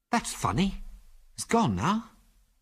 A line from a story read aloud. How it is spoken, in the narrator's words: said Ginger in a puzzled voice